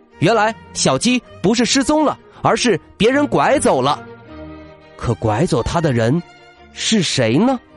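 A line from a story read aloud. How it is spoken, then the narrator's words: Startled exclamation. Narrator (Chinese): 他惊叫道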